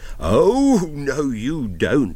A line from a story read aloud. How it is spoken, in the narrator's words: a voice thundered from just behind me